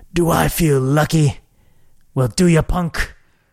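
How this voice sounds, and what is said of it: Poor imitation of another person's voice. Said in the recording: “that was a really bad Clint Eastwood impersonation”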